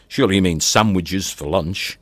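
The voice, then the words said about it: Parodied posh southern English accent. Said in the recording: “parodying a posh southern accent”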